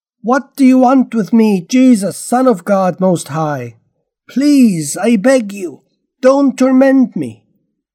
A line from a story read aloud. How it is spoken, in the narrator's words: he shouted and bowed down to him, yelling at the top of his voice